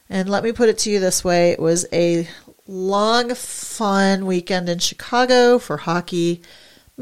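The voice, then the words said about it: Scratchy, tired-sounding voice. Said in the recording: “my voice is a little bit scratchy, tired sounding”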